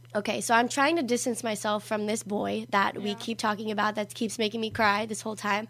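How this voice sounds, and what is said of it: Rough, croaky worn-out voice. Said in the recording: “Hence my voice. This is why I sound like a dying cow.”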